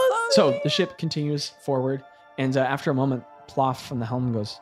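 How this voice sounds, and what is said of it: Usual voice. Nothing is said of it.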